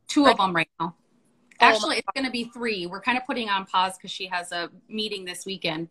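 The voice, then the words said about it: North Dakota accent. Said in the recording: “you have an accent. I guess I never noticed. ... North Dakota.”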